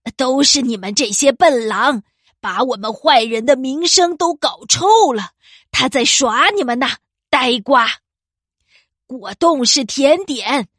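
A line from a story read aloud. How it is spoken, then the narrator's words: Wicked witch roaring. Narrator (Chinese): 坏巫婆大吼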